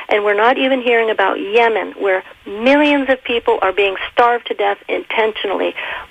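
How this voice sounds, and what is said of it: Militant, forceful tone. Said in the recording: “my militant tone of voice”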